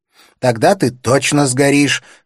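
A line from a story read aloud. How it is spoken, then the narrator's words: Shouted. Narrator (Russian): закричал кнут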